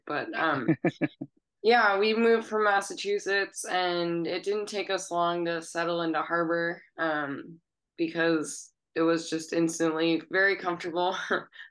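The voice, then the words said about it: Congested, stuffy-sounding voice. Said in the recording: “I have a cold. I sound like my brother,”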